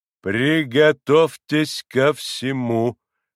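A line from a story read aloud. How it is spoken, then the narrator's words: Crisp, stressing each syllable. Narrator (Russian): отчеканил, ударяя по каждому слугу доктор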